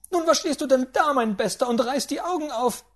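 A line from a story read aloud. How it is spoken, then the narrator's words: Great-aunt shouting. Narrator (German): schrie die Großtante an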